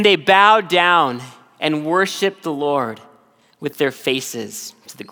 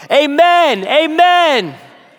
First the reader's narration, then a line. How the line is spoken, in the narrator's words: all the people stood up, lifted up their hands, and shouted